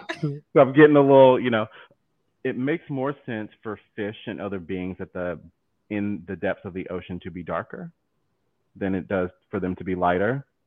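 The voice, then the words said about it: Southern American accent. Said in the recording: “my accent, my southern accent is coming out more.”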